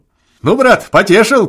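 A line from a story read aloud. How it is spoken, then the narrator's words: Shouting. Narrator (Russian): кричал Обалдуй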